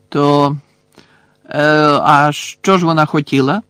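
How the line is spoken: Feigned indifferent question. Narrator (Ukrainian): запитав Рон удавано байдужим голосом

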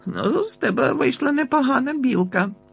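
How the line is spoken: Laughing. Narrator (Ukrainian): засміявся

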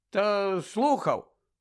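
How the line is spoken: Grumbled. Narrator (Ukrainian): буркнув Гаррі

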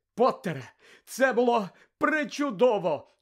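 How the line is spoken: Exclaiming. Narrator (Ukrainian): вигукнула професорка МакГонагал

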